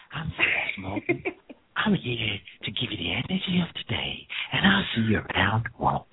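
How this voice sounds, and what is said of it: Imitation of the announcer's voice. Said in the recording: “It's getting better at doing my voice. Good job.”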